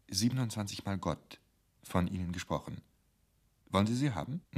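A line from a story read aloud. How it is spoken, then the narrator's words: Quiet. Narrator (German): Murke sagte leise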